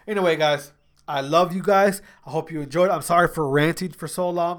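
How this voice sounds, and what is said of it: Stuffy, congested nasal voice. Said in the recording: “My nose is stuffy ... my nose gets stuffy”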